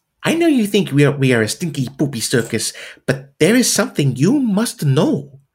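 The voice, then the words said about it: Put-on Italian accent, character voice. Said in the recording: “do an impression of Stefano, which contains an Italian accent. I admit that I'm not very talented with accents”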